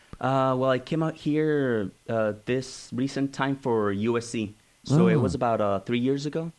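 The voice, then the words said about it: Slight Colombian accent. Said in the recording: “I can hear the accent a little bit”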